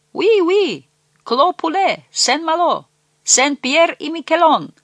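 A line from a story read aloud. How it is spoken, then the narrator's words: Laughing shouts in chorus. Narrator (Russian): Закричали в ответ, смеясь, хором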